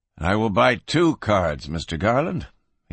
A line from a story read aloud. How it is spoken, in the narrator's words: he murmured quietly